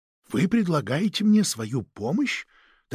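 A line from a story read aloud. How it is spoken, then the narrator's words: Quiet question. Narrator (Russian): так же тихо спросил Жарди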